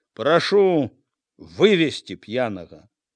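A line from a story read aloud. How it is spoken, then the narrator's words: Calm firm command. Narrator (Belarusian): Спакойна, цвёрда загадаў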